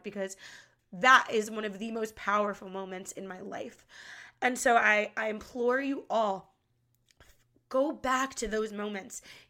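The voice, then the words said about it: Emotional, tearful voice. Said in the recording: “I'm even getting emotional now just talking about it ... you have to cry through it like I am now”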